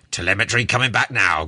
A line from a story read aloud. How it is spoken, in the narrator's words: growled the captain